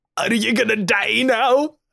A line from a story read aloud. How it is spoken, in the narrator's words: Gatwick sobs and sniffs and says